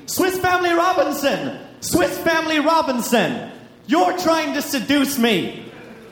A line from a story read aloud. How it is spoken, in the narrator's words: while screaming